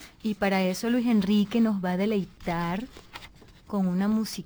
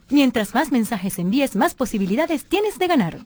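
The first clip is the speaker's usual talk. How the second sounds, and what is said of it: Radio announcer style voice. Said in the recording (Spanish): “Tienes voz de locutora.”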